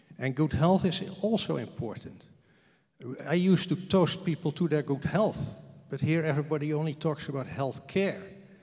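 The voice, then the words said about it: Speaks with a foreign accent. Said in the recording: “I talk with an accent”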